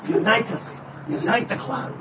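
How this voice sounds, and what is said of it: Put-on Scottish accent. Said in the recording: “How do you like my Scottish accent? Not bad.”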